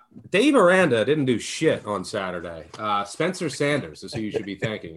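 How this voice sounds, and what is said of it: Slight Philadelphia Delco accent. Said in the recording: “my Delco accent ... I have a slight Philly Delco accent”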